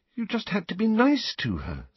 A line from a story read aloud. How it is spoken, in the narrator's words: said Hermione, looking up anxiously